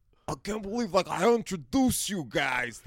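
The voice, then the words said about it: Imitates another person's voice. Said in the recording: “That's my Gabrus impression. ... Not a good John Gabrus impression.”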